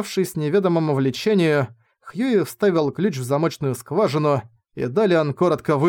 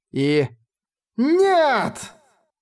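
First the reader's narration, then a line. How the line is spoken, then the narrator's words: Yelling. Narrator (Russian): заорала книга-покойник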